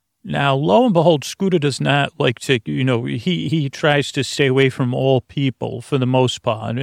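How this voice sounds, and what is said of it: Usual voice. Nothing is said of it.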